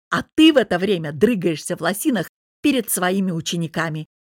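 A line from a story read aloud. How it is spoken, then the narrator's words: Bark. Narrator (Russian): рявкнул Богдан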